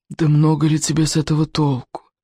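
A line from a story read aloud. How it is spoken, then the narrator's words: Weary. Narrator (Russian): устало продолжал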